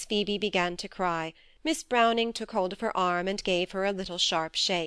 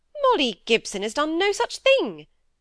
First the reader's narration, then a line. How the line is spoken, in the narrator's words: said Miss Browning indignantly